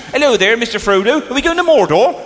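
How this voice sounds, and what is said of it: Put-on West Country accent. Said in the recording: “a lot of the hobbits have actually got West Country accents”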